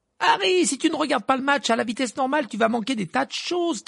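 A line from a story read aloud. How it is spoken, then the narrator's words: Excited shouting. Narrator (French): cria Hermione qui sautillait sur place en agitant les bras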